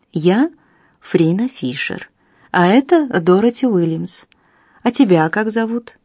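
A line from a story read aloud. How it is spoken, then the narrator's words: Calm question. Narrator (Russian): спросила она спокойно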